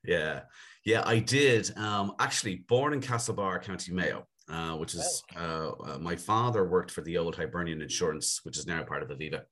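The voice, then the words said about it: Dublin Irish accent. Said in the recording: “We're going to take a guess from your accent ... that it was Dublin that you grew up in.”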